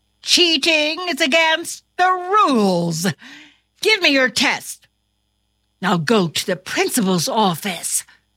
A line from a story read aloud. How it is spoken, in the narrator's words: exclaimed his teacher